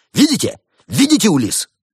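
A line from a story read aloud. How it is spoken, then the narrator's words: Shout. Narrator (Russian): Барсук выкрикнул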